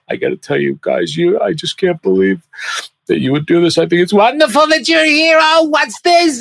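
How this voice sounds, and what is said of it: Emotional Jerry Lewis impression. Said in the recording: “then the emotional Jerry, you know, he was like”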